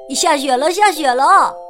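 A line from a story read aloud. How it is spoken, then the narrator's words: Excited shout. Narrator (Chinese): 安迪大叫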